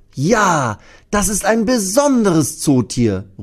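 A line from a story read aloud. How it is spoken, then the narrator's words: Loud call. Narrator (German): ruft Thea laut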